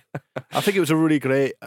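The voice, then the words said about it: Dour, broad Scottish-sounding imitation. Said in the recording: “a very dour voice anyway and a very broad kind of older accent ... that's a Scottish accent”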